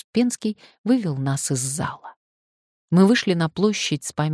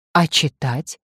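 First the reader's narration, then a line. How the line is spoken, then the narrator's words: Plain. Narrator (Russian): спросил Володя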